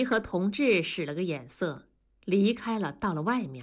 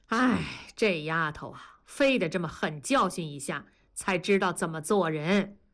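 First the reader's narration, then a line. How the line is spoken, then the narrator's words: Sighing lament. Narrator (Chinese): 同志感叹地说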